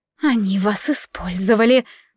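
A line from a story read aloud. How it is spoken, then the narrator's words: Angry hiss. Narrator (Russian): зло прошипела она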